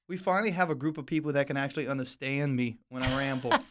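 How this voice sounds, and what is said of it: Cajun accent. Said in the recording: “His Cajun accent.”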